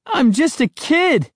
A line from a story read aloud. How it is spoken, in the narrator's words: I cried